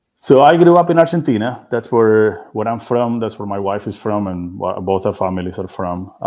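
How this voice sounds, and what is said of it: Foreign accent, Argentine. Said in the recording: “Obviously, you've got an accent”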